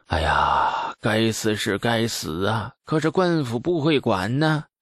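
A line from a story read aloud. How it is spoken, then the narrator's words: Indignant, sighing. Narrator (Chinese): 酒客们群情激愤，也有酒客摇头叹息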